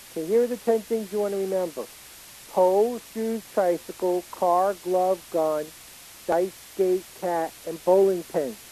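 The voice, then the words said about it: Brooklyn accent, like Woody Allen. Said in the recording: “I have a Brooklyn accent, even though I live in Texas... They said you sound like Woody Allen.”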